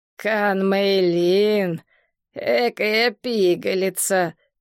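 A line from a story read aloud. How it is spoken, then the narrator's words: Creaky voice. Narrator (Russian): проскрипел Джен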